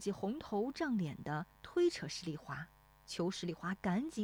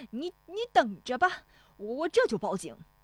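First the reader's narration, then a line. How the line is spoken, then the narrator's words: Shouting. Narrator (Chinese): 冯谷子嚷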